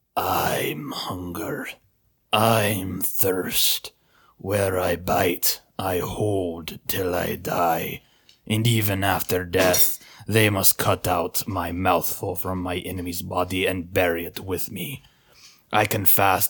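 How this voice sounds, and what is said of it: Dull, gray werewolf voice. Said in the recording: “Give me your good werewolf voice ... A dull, gray voice at which Peter's flesh crept”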